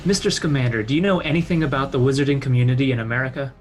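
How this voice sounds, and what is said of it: Slight old-fashioned American accent. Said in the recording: “that kind of slightly old American accent ... just a little bit ... not not overdone”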